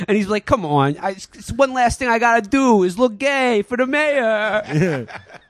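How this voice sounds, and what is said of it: Put-on Boston / New York accent. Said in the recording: “I hope you guys are enjoying my Boston accent ... You were doing the New York guy, right? ... that's what you sounded like ... Every East Coast shithead basically sounds the same.”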